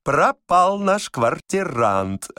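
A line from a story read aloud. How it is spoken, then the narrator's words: Joyful. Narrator (Russian): радостно говорил отставной дворник Никита Пряхин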